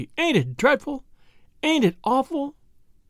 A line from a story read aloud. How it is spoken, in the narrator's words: sobbed she